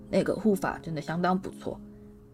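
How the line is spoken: Deep loud shout. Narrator (Chinese): 哈利沉声大喝

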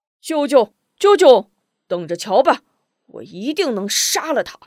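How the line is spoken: Shouting. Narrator (Chinese): 大喊

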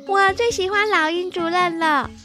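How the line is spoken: Loud. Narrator (Chinese): 小麻雀噜噜…大声地说

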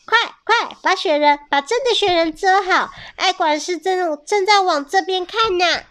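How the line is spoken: Urgent call. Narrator (Chinese): 啄木鸟叮咚叫

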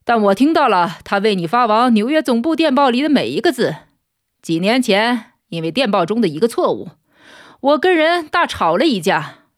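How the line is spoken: Chuckling. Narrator (Chinese): 他咯咯的笑着说

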